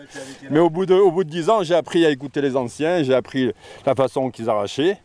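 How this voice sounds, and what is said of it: Cantal regional French accent. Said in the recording (French): “accent cantalien”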